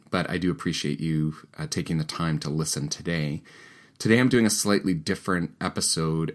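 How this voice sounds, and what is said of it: Slightly deeper, recovering voice. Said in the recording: “I actually lost my voice last week... I have this lingering cold. So my voice might sound a bit deeper or different than usual.”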